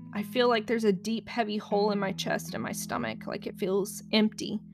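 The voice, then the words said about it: Shaky voice. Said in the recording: “you can tell my voice is very shaky today”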